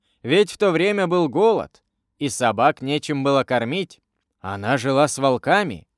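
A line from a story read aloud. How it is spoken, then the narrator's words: Plain, man. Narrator (Russian): сказал третий индеец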